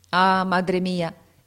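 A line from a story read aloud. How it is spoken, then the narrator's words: Exclaiming. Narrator (Italian): esclamò egli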